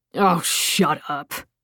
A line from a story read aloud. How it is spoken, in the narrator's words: Agrippa snapped